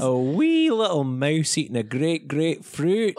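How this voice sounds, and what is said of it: Put-on Scottish accent. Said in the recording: “My key phrase for Scottish is one of my favorite key phrases.”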